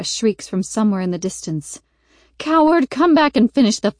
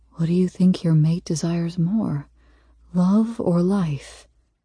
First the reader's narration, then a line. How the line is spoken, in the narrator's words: He whispers into my ear